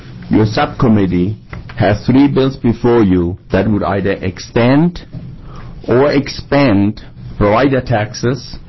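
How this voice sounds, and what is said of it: Non-native English accent. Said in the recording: “I have been in Oregon now for 30 years, and I don't hear my accent anymore, but I still sometimes have hard time with certain words ... my wife doesn't know I have an accent anymore either”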